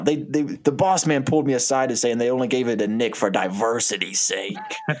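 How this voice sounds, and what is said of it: Put-on Italian-sounding voice. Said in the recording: “doing an Italian voice... I just can't do a good Will Arnett impression”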